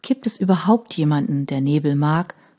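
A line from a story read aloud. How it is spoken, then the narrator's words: Plain question. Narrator (German): fragte Rose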